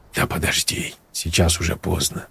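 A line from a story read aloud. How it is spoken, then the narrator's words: Mumbled. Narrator (Russian): пробормотал Леша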